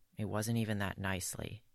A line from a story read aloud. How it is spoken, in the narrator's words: Geralt mutters petulantly